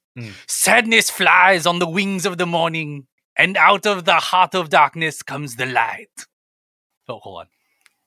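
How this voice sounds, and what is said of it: Put-on theatrical accent. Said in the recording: “I'm going to do it with the accent, baby”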